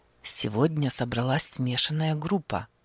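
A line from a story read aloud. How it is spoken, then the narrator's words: Quiet, hushed. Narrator (Russian): заговорил он тихо, чтобы не разбудить солдата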